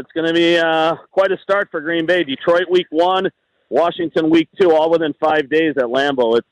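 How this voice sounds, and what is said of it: Strong Green Bay Wisconsin accent. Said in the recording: “11 out of 10 Green Bay accent ... turbo Wisconsin right there.”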